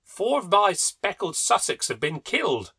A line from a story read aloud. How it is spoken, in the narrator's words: he exclaimed